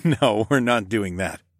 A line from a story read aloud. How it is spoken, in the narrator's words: I laughed